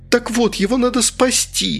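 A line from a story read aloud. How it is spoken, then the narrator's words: Pleading. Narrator (Russian): взмолилась я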